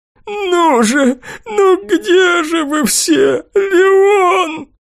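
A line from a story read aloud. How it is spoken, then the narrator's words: Openly sobbing. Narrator (Russian): Пленник уже не всхлипывал, а неприкрыто рыдал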